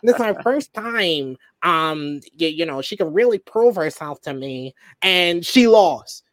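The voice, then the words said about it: Imitates another person's voice. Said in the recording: “my best Sarah impersonation that I can do”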